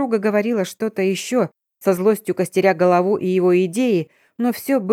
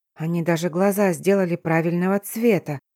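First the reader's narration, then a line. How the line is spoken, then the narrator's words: Barely audible. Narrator (Russian): едва слышно произнесла я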